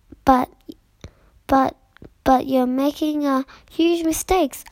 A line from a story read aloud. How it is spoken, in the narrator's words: I sputtered